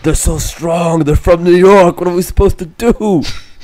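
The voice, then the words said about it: Put-on New York accent. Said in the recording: “that sounds like a New York impersonation”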